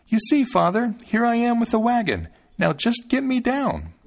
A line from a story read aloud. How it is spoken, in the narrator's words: called out